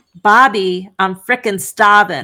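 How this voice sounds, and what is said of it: Yelled line in Boston-ish accent. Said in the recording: “we kept hearing her yell out in like kind of like the Boston esque accent”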